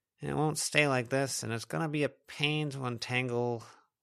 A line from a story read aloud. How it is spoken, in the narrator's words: Lucy grumbled, looking grumpier than her usual